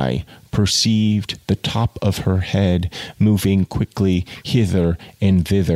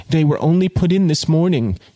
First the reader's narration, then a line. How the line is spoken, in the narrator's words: she cried, stimulated to pursue in spite of her lover's presence